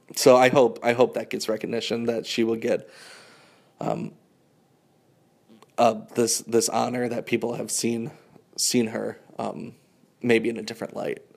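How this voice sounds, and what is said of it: Choked up, emotional voice. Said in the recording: “I'm getting a little choked up here.”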